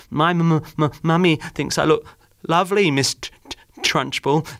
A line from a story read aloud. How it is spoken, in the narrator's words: Amanda stuttered, shaking like a blancmange